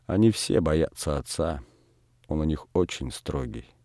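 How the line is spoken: Quiet. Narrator (Russian): сказала Передонову тихо

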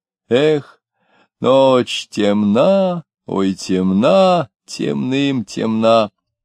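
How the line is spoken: Humming outside. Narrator (Russian): За окном мурлыкали

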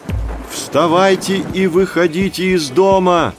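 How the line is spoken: Unaccustomed, unfamiliar shout. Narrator (Russian): закричал Пурунубхагат и сам не узнал собственного голоса, потому что прошло много лет с тех пор, как он громко разговаривал с человеком

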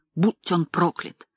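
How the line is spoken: Hoarse rasp. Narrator (Russian): прохрипел я

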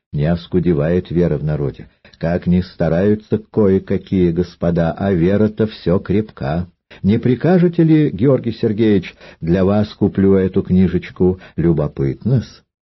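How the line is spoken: Falsely sweet voice. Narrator (Russian): Остров говорил притворно сладким голосом

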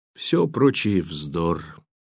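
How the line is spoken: Slightly hoarse, breathing heavily. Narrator (Russian): сказала она чуть хриплым голосом, тяжело дыша

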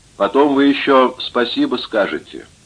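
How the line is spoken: Calm. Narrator (Russian): спокойно говорит Крюк

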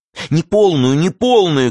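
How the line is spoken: Shouting. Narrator (Russian): кричала Ванда

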